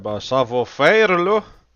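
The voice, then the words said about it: Heavy put-on accent. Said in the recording (French): “je vais m'exclamer avec mon gros accent”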